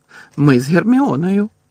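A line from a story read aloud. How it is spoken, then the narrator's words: Laughing. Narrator (Ukrainian): Муді засміявся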